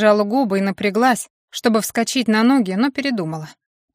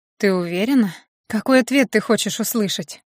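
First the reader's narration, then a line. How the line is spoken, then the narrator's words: Calm question. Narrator (Russian): спокойно спросила я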